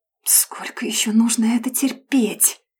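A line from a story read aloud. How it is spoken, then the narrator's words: Quiet through teeth, smiling. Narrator (Russian): тихо процедила я, не снимая с лица улыбку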